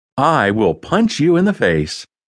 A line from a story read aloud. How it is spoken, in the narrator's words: Jet said cheerfully